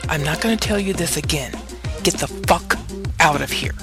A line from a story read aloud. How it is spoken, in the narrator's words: Naomi hissed